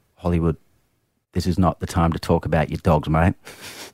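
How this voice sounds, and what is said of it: Put-on Australian accent. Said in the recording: “Good Australian accent by you. Well done.”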